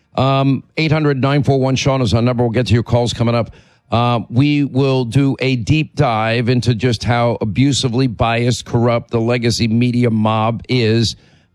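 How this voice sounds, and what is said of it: Hoarse voice from laryngitis. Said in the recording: “my laryngitis”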